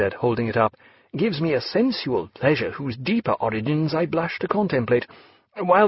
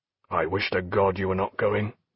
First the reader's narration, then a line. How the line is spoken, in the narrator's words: said Jack in a low voice